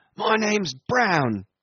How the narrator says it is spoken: answered the other loudly

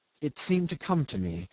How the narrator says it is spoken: he murmured

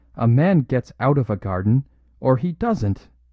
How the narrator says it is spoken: cried

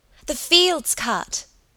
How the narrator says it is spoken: Helen cried excitedly

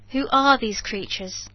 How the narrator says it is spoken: said I, raising my voice more and more that it might reach them

